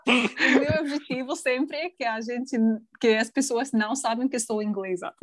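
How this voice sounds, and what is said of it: Slight foreign accent in Portuguese. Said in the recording (Portuguese): “você tem um leve sotaque, mas hum. se eu não soubesse, por exemplo, que você não é do Brasil, eu diria que você é de outra região do Brasil. Talvez do sul. ... talvez ache que você tem alguma coisa com Portugal por causa de algumas palavras que você pronuncia”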